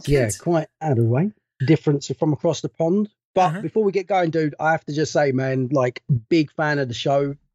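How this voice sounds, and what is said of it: British English accent. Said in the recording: “I noticed an accent ... from the UK, from a little town called Maidstone in Kent”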